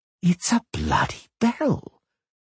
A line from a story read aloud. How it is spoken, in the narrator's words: Dandelion whispered